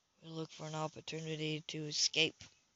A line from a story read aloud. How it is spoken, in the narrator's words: he whispered back